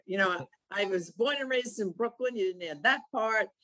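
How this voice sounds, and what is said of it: New York accent. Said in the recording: “most people can tell as soon as I open my mouth ... I still have my New York accent”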